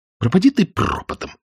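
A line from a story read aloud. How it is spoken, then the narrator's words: Indignant muttered curse. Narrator (Russian): возмущенно ругнулась про себя Скарлетт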